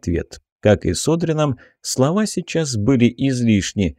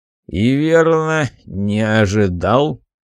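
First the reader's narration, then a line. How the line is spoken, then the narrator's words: Grim statement. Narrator (Russian): мрачно констатировал пешек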